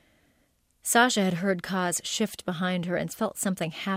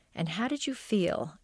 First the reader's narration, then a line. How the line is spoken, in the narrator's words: Kaz asked quietly